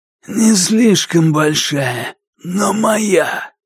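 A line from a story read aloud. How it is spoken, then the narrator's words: Wheezing, hoarse from illness. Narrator (Russian): От старых болезней он хрипел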